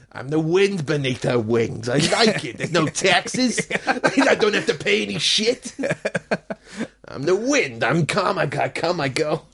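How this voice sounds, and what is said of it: Weird put-on Jewish accent. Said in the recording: “It's a really weird Jewish accent. ... A kind of Adam Sandler kind of voice.”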